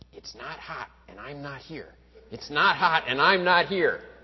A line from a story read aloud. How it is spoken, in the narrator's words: the guy who believed in the power of positive thinking, just clenched his eyes shut very tightly and said